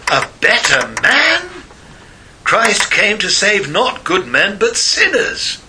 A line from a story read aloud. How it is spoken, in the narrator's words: Staupitz exclaimed